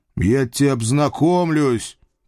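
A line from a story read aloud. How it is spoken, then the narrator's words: Deafening bark. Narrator (Russian): рявкнул я так, что парень слегонца оглох на одно ухо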